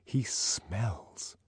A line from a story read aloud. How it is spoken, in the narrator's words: she lowered her voice